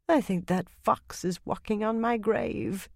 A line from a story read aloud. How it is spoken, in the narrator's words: Yukiri murmured